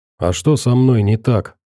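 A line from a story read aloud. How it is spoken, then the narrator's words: Nervous dry-mouthed question. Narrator (Russian): спросил Веник и почувствовал, как у него вдруг стало сухо во рту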